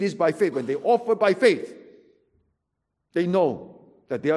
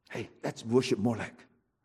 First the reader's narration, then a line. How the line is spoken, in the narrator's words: quietly